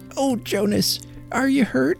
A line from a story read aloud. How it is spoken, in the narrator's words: cried, wildly and terrifiedly